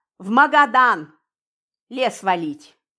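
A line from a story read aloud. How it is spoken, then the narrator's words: Serious tone. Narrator (Russian): серьезным тоном ответил Мельников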